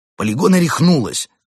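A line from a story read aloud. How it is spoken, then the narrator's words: Heated exclamation. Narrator (Russian): жарко воскликнул Амбразур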